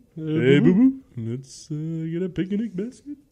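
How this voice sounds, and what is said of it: Poor cartoon bear impression. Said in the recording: “my terrible Yogi the Bear impression”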